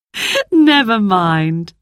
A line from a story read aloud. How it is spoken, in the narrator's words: laughed Mother